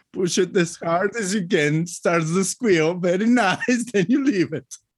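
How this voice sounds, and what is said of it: Non-native English accent. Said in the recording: “my English with that accent, which is very nice”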